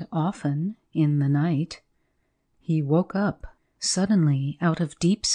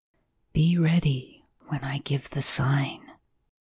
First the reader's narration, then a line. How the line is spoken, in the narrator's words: the well-known whisper